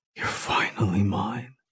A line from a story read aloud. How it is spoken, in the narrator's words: he whispers